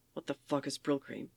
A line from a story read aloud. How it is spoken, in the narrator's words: Soldier mutters